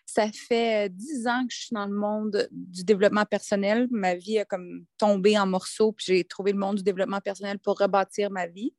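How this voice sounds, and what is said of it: Québécois French accent. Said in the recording (French): “Je suis québécoise, donc on va avoir un accent un peu différent”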